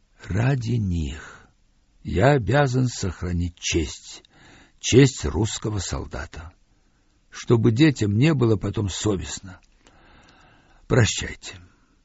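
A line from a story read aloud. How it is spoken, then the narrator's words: Quiet. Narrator (Russian): Самсонов со вздохом сказал тихо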